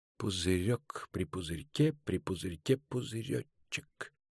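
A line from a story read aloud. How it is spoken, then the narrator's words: Purring hum. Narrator (Russian): замурлыкал он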